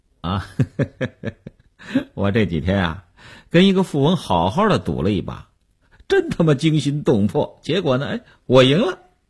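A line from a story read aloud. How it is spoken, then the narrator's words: Smiling. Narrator (Chinese): 刘文庆笑笑说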